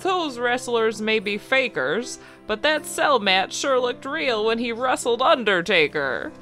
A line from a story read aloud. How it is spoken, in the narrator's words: old Santa laughed